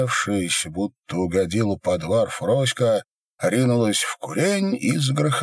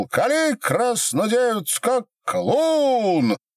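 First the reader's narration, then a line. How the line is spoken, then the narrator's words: Shouted out. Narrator (Russian): Иван выкрикнул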